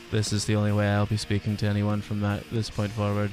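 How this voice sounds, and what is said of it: Flat monotone delivery. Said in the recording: “I'm just going monotone now”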